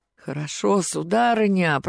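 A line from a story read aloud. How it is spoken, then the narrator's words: Groaning. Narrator (Russian): простонал Кистунов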